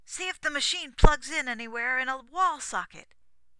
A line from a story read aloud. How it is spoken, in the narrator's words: he shouted to Lennon